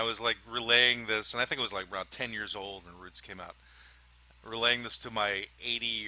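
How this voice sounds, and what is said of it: Usual voice. Nothing is said of it.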